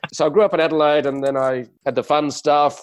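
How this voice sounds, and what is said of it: Australian accent with English touch. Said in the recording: “I speak with a strange accent ... it's an Aussie accent with a touch of English”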